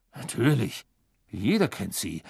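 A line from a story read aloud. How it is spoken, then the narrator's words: Murmur. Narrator (German): murmelte Mr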